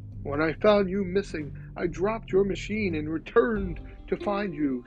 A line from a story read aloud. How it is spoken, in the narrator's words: Stratus called out